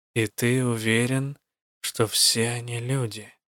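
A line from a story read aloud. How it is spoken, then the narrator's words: Quiet mutter. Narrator (Russian): тихо пробормотала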